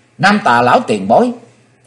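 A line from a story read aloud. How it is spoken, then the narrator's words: Joyful cry. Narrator (Vietnamese): Chí Tôn hoan hỷ kêu lên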